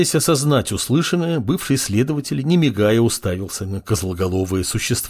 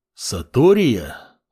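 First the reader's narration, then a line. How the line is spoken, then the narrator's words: Thoughtful. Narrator (Russian): задумчиво произнес Амур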